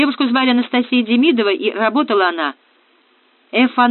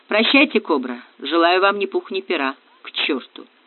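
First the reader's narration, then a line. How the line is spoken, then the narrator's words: Muttering. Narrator (Russian): пробормотал Ратибор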